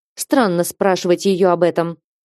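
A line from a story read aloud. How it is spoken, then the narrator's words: Lord's bitter snort. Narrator (Russian): желчно хмыкнул лорд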